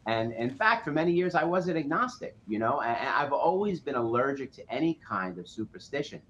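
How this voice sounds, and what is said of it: Nasal New York accent. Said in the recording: “my lovely nasal New York accent”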